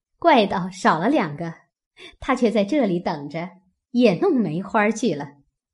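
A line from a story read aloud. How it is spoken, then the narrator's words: Crowd laughing. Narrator (Chinese): 众人都笑道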